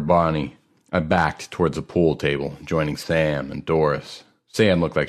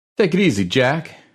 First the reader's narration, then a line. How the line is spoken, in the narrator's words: cried Link